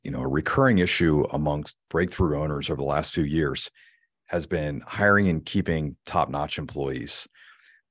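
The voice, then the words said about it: Damaged, strained voice. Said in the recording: “I apologize for my voice. Recently suffered a traumatic blow to my trachea”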